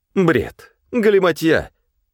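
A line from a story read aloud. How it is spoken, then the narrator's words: Stern yet cheerful. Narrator (Russian): Сурово и весело сказал Князев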